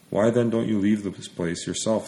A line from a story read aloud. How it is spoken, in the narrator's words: asked